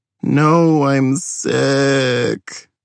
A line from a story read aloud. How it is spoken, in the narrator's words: I groaned